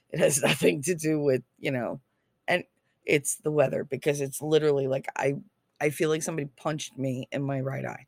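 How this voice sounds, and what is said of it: Hoarse voice. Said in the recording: “I know I sound really hoarse”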